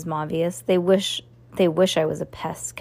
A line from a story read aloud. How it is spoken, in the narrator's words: Cass stammered, trying to sound much tougher than she felt